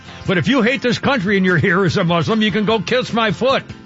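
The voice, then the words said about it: Yelling, loud shouted speech. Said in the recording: “Why am I yelling again?”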